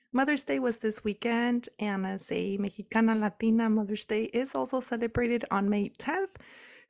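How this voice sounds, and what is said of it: Slightly hoarse, sick-sounding voice. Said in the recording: “I'm a little bit under the weather, so please excuse my voice. ... me pego un poquito la tos y traigo la garganta un poco irritada”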